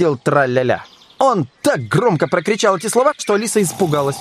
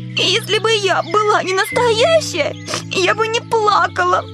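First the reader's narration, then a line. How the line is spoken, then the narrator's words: Smiling through tears. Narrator (Russian): сказала Алиса, улыбаясь сквозь слезы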